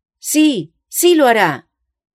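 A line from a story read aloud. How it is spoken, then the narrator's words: Unanimous shout. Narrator (Spanish): fue el grito unánime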